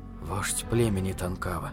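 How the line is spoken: Muttering. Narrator (Russian): пробормотал Питер

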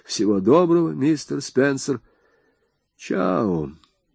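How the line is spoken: Flat, colorless voice. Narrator (Russian): повторил бесцветным голосом

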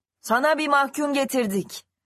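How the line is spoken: Shouting from below. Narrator (Turkish): diye bağırdı aşağıdan

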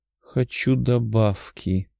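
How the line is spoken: Muttering. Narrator (Russian): пробормотала девушка

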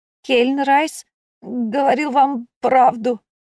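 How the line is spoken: Strained, frightened. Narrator (Russian): побелевшими губами выдавил из себя смазливый

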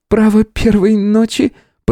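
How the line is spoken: Squeaking. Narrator (Russian): пропищала она

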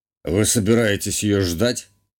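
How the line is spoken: Snorting, smirking. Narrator (Russian): хмыкнул герцог

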